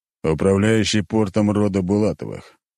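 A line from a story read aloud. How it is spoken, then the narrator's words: Deep bass voice. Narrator (Russian): пробасил Леонид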